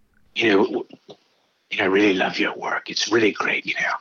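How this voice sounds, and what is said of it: Deep raspy imitation of another person. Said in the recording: “that deep voice ... raspy as it is now ... I'm doing his voice ... I gotta work that impression out”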